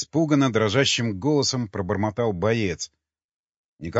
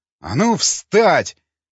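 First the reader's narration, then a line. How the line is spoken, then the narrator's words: Yelled. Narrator (Russian): заорал он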